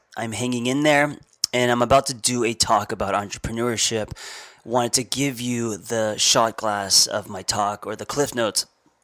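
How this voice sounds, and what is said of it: Sick, rough-sounding voice. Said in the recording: “I am half sick ... not that I sound sexy when I'm sick ... apologize for my voice”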